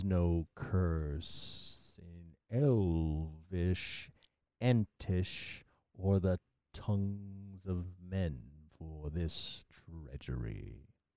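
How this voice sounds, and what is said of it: Imitates Treebeard's Ent voice. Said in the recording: “my best Ent impression. ... I appreciate the impression.”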